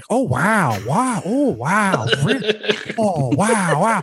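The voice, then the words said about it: Imitates another person's voice. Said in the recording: “They just did Owen Wilson impersonation”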